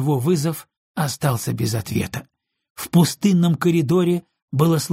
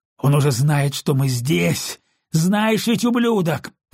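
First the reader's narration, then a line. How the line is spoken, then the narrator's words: Roaring. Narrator (Russian): проревел он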